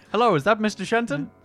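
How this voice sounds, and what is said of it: Put-on old-timey accent. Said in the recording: “I've got an old-timey accent.”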